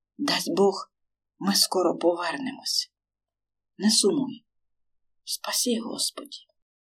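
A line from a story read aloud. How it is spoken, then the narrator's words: Whispering. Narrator (Ukrainian): прошепотіла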